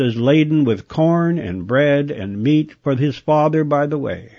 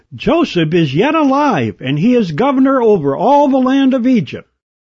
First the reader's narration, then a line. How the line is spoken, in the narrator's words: one of them almost shouted